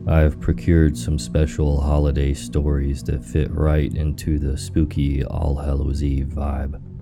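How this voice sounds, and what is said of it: Sick-sounding voice. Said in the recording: “Please forgive my voice as I'm a bit under the weather at the moment.”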